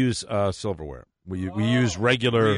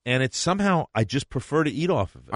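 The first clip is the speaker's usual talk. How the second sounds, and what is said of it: Slips into a New York accent. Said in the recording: “developing a New York accent when I say eat off of it”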